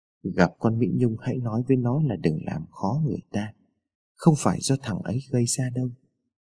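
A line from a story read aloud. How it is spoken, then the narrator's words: Old man, very soft. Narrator (Vietnamese): ông nói rất khẽ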